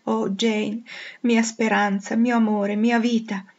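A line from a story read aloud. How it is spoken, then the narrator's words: Anguished deep sob. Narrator (Italian): Gli sfuggì dolorosamente dalle labbra con un profondo singhiozzo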